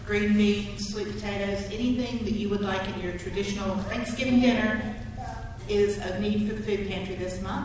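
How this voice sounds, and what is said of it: North Carolina accent. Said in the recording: “where are you from originally? ... North Carolina. ... you're not from here. ... it's like the parade of accents this morning.”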